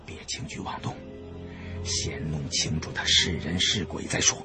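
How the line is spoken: Low voice. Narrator (Chinese): 我也低声对胖子和大金牙说

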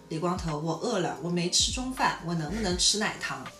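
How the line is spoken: Soft voice. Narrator (Chinese): 宋刚轻声地对李光头说

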